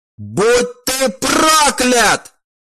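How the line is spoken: Piercing shrieks of two. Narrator (Russian): оба родителя разрывали его сознание своим раздирающим мозг визгом

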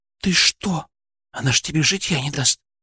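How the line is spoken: Whispered in ear. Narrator (Russian): шепнула на ухо Алена

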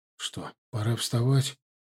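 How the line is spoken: Sleepy mumble. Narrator (Russian): пробормотал с просонья

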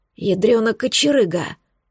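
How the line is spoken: Hoarse wheeze. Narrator (Russian): прохрипел он

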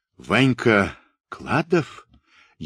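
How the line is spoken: Barely audible whisper. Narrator (Russian): еле слышно прошептал он

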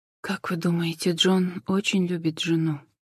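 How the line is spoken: Sad question. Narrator (Russian): грустно спросила Джен

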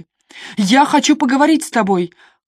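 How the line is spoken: Shout through closed door. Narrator (Russian): крикнула в закрытую дверь

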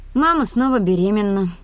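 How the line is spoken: Sighing. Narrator (Russian): вздохнула я

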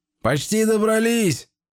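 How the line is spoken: Shout. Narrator (Russian): крикнул Иларем

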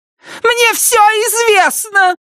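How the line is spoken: Frantic shrill scream. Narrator (Russian): закричала Клара, своим безумным, пронзительным голосом

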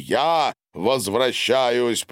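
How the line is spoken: Shouting. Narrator (Russian): прокричал Гарин

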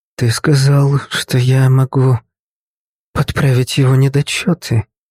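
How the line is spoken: Confused mumble. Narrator (Russian): растерянно пробормотала Кэтрин

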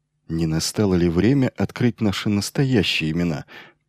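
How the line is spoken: Muttered. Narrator (Russian): пробормотал свое предложение Майлзу Грегор

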